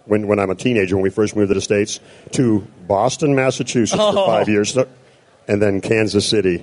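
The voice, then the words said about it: Canadian or Oklahoma twang. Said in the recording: “I could hear that twang... Either way, it's a Canadian twang or a Oklahoma twang.”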